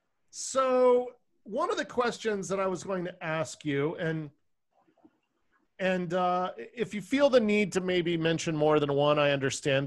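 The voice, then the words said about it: Boston accent. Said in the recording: “your Boston accent. I love it.”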